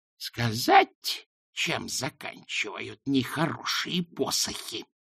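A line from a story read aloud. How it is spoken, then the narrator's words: Hissing. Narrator (Russian): прошипела она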